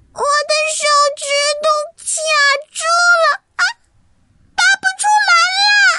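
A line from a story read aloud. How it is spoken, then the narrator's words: Loud shout. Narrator (Chinese): 奈丽大喊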